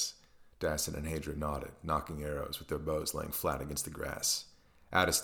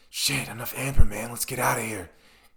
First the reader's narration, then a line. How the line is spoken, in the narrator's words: hissed Hadra under his breath